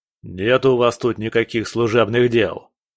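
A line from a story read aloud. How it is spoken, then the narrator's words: Guard barking. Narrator (Russian): рявкнул охранник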